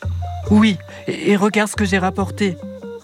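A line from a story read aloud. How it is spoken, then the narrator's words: Excited exclamation. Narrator (French): s'écrie Isha très excitée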